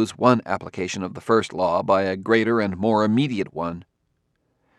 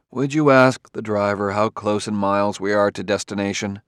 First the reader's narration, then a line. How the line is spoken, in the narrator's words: He said wearily